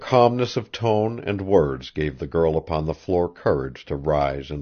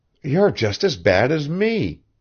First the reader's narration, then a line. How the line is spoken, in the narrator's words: cried Maud suddenly